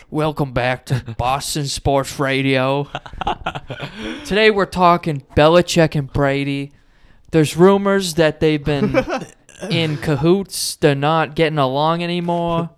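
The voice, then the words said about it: Put-on sports radio host accent. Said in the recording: “I don't know what accent that is”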